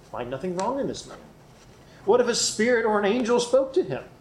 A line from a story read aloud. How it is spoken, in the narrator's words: a great clamor arose, and some of the scribes of the Pharisees' party stood up and contended sharply